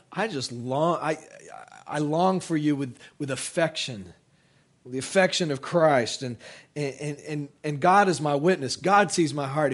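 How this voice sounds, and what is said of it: Strained, struggling voice. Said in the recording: “My voice is struggling”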